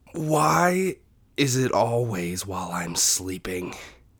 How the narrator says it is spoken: Marlin groaned

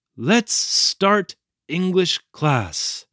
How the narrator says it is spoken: In a loud, faltering voice, he said in English

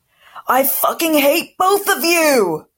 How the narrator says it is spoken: Goyle yelled

